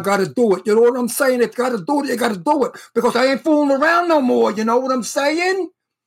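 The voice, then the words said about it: Heavy fake Brooklyn accent. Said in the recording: “my very heavy fake Brooklyn accent ... I don't speak that way in my real life”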